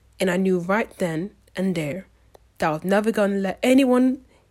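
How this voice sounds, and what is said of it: Poorly imitated character accent. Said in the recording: “I'm butchering this accent”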